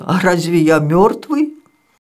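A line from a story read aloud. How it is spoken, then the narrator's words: Laughing son. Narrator (Russian): Сын засмеялся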